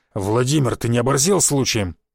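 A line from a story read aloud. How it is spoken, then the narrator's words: Growl. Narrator (Russian): прорычал он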